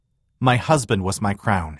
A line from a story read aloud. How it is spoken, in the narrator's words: she said sharply